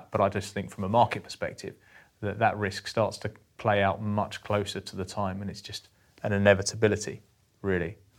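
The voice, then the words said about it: Strong English accent. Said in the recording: “a very English accent”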